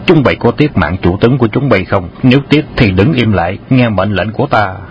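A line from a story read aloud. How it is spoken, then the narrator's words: Loud commanding shout. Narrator (Vietnamese): Khâu Sứ Cơ quát lớn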